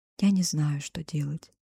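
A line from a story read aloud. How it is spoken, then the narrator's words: Whisper. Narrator (Russian): прошептала снова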